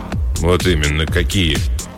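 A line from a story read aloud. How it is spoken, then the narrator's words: Gloomy mutter. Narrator (Russian): мрачно буркнул Вейнбаум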